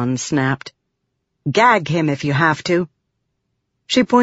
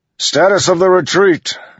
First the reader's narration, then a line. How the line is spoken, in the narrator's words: Dalinar bellowed